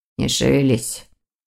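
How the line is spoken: Quiet. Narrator (Russian): тихо проговорил

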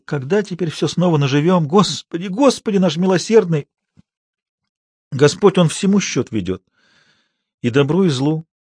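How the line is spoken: Sobbing, half-voiced. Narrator (Russian): Она всхлипывала, приговаривала в полголоса

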